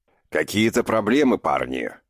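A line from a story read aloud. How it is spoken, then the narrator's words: Familiar bass booming from door. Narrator (Russian): прогудел от двери знакомый бас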